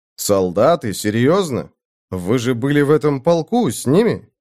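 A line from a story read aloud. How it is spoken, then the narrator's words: Plain. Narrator (Russian): сказал я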